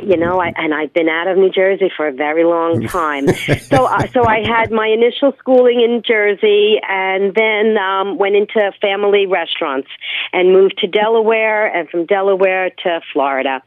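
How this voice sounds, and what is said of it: New Jersey accent. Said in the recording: “I grew up in New Jersey. ... Almost could have guessed that from your accent.”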